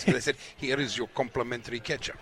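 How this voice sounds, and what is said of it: Put-on Russian accent. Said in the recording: “Do you like my Russian accent? ... That's very good, it's really coming on.”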